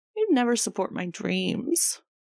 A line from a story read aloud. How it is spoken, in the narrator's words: Jisung whines